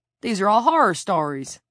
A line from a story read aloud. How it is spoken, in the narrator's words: Hicks exclaimed